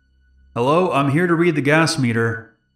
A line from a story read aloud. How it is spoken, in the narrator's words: a man called out